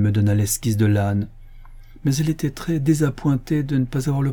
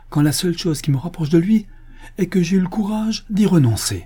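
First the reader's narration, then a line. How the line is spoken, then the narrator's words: Exclaimed. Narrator (French): s'écria-t-il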